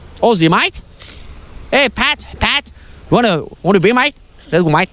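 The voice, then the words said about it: Put-on Australian accent. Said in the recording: “Do an Australian accent.”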